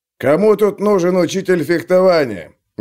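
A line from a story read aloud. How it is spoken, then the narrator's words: Loud question. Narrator (Russian): громко спросил Клевер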